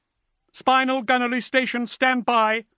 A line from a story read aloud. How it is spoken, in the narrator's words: shouted the servile belligerent